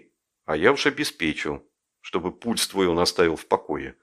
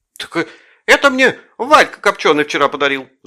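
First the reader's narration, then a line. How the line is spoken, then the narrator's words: Shouting. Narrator (Russian): закричала Манька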